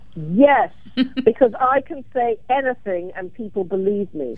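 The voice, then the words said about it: Put-on British accent. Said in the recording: “a British accent ... Is that why you decided to begin to use a British accent despite growing up in Alabama?”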